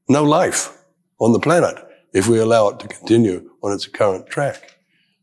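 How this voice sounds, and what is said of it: Voice rough from a bad cold. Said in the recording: “apologize for my voice. ... a very bad cold”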